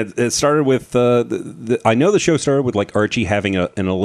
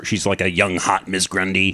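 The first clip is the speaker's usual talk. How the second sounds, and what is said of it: Suddenly gravelly, husky voice. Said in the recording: “my voice went so gravelly ... I certainly turned into Harvey Firestein”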